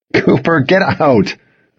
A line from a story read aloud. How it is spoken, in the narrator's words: said, laughing